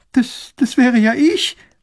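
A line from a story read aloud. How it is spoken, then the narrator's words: Girl sobbing. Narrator (German): schluchzt das Mädchen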